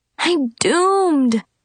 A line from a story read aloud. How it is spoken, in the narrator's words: I groaned as I sadly munched on a cold, greasy duck gizzard meatball